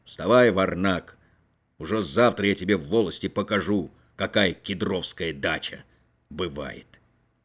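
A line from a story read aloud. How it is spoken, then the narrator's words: Father speaking sternly. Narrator (Russian): Отец строго проговорил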